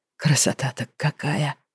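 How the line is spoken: Dreamy sigh. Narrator (Russian): мечтательно вздохнул Петечка

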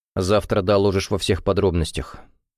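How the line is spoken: Very serious. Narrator (Russian): самым серьезным тоном промолвил Максим

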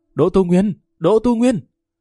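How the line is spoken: Grief-stricken loud cry. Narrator (Vietnamese): Lâm Văn Vinh khịt mũi đau xót lớn tiếng

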